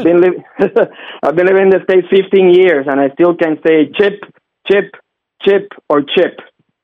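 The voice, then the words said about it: Puerto Rican accent. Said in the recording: “I'm Puerto Rican, man... But you know my accent. I can't get rid of it, man.”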